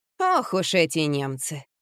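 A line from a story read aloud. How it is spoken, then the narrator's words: Scornful snort, elderly woman. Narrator (Russian): фыркнула пожилая женщина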